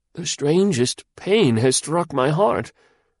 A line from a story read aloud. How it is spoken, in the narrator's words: Suddenly the old magistrate began to tremble, he faltered out